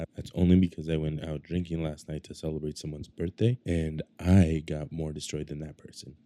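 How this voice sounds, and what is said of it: Raspy, rough voice. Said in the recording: “my voice is a little raspy, and yes, I sound like crap.”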